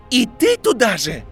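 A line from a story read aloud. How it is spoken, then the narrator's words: Yelling. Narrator (Russian): заорал Драко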